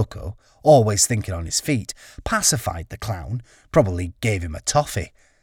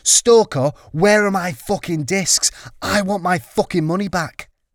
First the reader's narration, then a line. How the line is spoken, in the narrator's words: he screamed